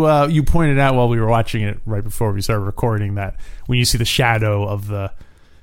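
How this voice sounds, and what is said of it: Usual voice. Nothing is said of it.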